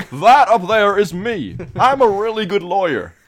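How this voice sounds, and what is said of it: Imitates a character's voice. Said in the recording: “My Matt Murdock impression”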